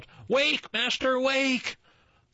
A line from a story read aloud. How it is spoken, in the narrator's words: the harp stopped playing and called out